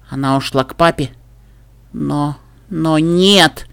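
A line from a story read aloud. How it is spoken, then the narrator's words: Quiet mumbling to herself. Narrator (Russian): Тихонько бормотала Пуппи, разговаривая сама с собой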